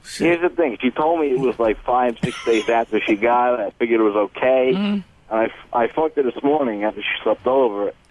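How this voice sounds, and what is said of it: Picked-up Yonkers New York accent. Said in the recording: “What is this accent? ... You could tell I just visited my uncle in Yonkers ... I would drive back sounding like that.”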